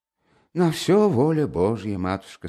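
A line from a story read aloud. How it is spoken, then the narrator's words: Said with a sigh. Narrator (Russian): сказал Чичиков, вздохнувши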